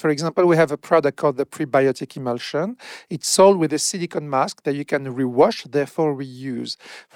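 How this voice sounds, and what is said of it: Speaker with a foreign accent. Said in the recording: “Sheet mask, but in your accent, it sounds like shit mask.”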